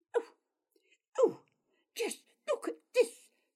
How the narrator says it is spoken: she screeched

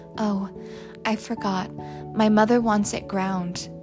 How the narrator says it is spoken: Francie said in a trembling voice

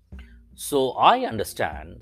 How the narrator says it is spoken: said Santa Claus

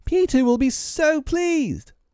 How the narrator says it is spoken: Tootles excitedly

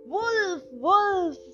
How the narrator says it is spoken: Alarmed, he cried out as loud as he could

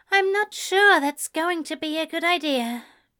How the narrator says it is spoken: Ezra replied with a sigh

